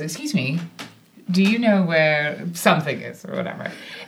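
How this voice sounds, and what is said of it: Put-on British accent. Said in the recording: “now I'm going to do a British accent”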